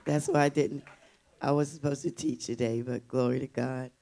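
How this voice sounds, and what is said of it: Voice affected by a cold. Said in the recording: “I have a little cold in my voice”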